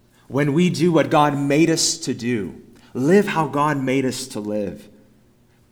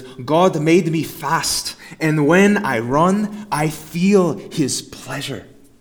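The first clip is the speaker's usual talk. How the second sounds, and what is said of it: Attempted Scottish accent. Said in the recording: “I'll do my best at a Scottish accent”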